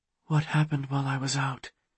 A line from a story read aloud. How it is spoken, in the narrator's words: She asked in a hushed voice